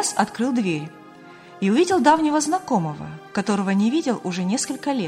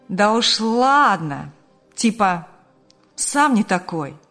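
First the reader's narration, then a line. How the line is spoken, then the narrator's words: Cheeky drawl. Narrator (Russian): Развязно протянул товарищ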